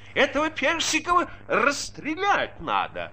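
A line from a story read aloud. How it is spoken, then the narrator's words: Shrill shouting. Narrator (Russian): чей-то визгливый голос кричал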